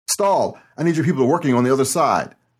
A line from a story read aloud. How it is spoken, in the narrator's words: Mateo yelled